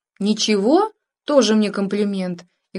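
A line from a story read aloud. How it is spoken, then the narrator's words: Mock indignation, playful. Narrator (Russian): делано возмущенно, ответила она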